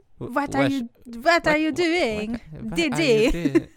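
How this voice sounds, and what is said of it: Put-on French accent. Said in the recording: “Except in French accent.”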